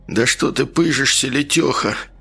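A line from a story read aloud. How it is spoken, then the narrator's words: Weary drawl, man. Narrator (Russian): устало протянул мужик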